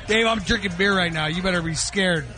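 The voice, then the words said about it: Yelling loudly into the microphone. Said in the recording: “stop yelling into the microphone”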